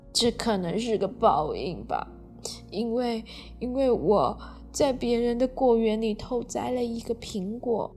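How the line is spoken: Crying. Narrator (Chinese): 熊日在旁边一边哭，并说

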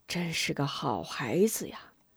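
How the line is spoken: Old man sighing. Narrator (Chinese): 老神医叹道

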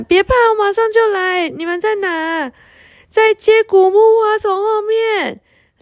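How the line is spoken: Excited shout. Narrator (Chinese): 小女巫一下子蹦起来了，大喊

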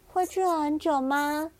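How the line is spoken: Plain. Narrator (Chinese): 小羊罗素问

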